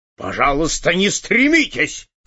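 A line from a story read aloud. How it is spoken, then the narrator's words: Angry interruption. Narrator (Russian): зло прервал его директор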